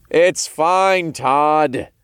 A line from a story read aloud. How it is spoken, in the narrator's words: I called out